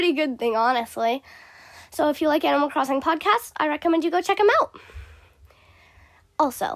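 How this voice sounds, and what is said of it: Usual voice. Nothing is said of it.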